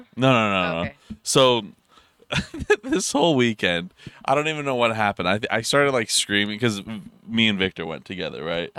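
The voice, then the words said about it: Hoarse, worn-out voice. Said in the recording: “you can tell my voice is kind of gone, right? ... You've been yelling a lot.”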